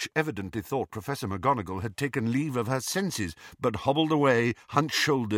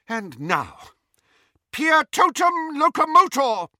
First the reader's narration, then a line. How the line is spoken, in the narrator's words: cried Professor McGonagall